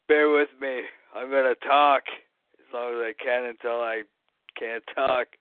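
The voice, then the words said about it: Hoarse, strained voice. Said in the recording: “My voice is going to shit. ... I got a cold or something, so my voice is pretty shitty.”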